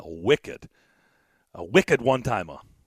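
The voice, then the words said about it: Poor attempt at Boston accent. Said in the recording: “I can't do the Boston accent... I can't do it... I suck at Boston accent.”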